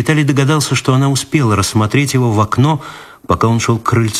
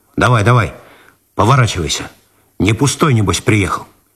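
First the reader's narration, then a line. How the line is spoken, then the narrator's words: Rough, rude. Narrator (Russian): грубо добавил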